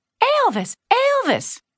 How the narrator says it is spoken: the fans would always shout

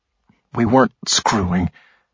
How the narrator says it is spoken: he said in an equally anguished tone

